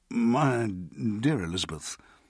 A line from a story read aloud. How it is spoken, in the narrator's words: he said, stammering